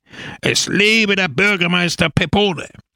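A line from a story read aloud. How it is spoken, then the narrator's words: Crowd roaring. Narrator (German): brüllte die Menge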